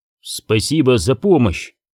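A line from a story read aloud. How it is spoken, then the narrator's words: Angry curt remark. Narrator (Russian): сердито бросил братьям Оби-Ван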